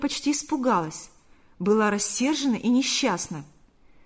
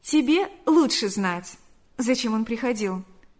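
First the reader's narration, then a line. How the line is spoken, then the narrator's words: Plain. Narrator (Russian): сказала она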